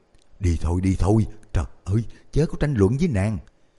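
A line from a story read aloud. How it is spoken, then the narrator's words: Frightened urging. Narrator (Vietnamese): Tôn Quản sự sợ hãi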